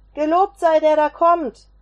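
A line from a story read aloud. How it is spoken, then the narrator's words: Calling out. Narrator (German): rief einer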